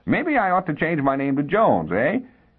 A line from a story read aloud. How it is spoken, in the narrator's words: He laughed almost hysterically